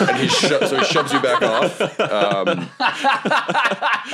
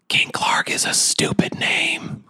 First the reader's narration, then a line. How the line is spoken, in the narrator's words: whisper in his ear